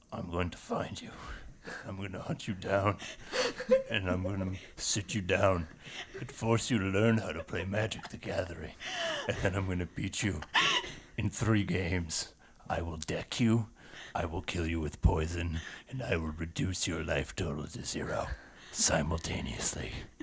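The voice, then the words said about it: Liam Neeson impression. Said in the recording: “do a Liam Neeson impression ... Dead on. Dead on.”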